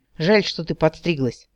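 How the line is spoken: Captain sighing. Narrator (Russian): вздохнул капитан

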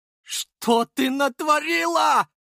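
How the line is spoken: Hoarse yell. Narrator (Russian): заорал Водопьянов хрипло

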